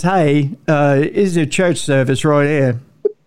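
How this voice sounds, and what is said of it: Put-on British accent. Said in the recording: “So did they have a British accent?”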